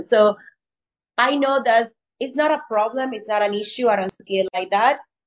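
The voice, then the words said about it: Non-native English accent. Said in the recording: “English is not my first language ... I'm sorry about my accent.”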